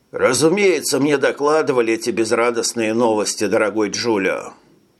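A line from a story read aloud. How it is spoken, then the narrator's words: Sighing. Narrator (Russian): вздохнул координатор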